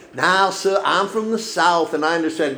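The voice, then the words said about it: Imitated female southern accent. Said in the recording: “some lady calls him that with a southern accent.”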